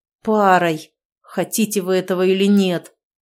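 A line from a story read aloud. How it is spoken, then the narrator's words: Furious, firm, through teeth. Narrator (Russian): Суворов в ответ разъяренно глянул на них, но категорично ответил сквозь зубы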